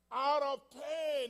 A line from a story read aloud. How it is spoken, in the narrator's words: he cried out